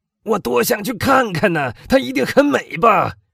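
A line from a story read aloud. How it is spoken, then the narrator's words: Sudden loud speech. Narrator (Chinese): 他突然大声说道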